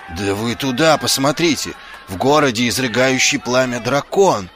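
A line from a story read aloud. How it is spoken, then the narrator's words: Frightened yelling. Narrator (Russian): завопил Ваймс, вспоминая ужасные раздувающиеся ноздри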